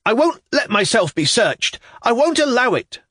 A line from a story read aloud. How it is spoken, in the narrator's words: I shouted